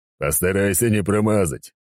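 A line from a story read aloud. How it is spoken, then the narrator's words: Smirking grunt. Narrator (Russian): хмыкнул Сигизмунд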